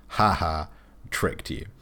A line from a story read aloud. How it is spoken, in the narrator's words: laughs one more time, and just says